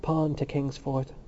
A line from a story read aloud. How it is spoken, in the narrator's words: The medical student went on in a softer voice